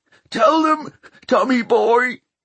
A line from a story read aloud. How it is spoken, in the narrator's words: he whimpered